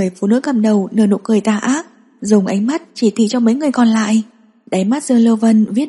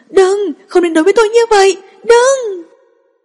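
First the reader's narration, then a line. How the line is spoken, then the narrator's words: Shrill scream. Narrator (Vietnamese): tiếng thét chói tai của cô ta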